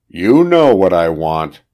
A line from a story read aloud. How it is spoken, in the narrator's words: growled Owen